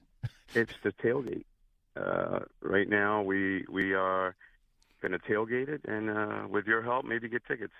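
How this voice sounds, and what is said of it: Hoarse, worn-out voice. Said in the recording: “Excuse my voice. I'm still trying to get my voice back from Sunday.”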